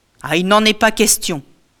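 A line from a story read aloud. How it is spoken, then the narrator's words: Loud voice. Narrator (French): dit Ulysse d'une voix forte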